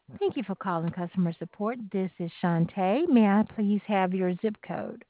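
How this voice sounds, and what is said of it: Southern US accent. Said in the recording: “sort of a southern accent”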